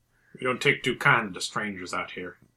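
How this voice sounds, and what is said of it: Put-on Arizona or Texas accent. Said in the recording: “Texas. My Arizona accent.”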